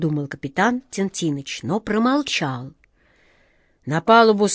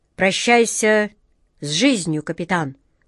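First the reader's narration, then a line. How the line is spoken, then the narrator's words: Spiteful. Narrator (Russian): злобно проговорила она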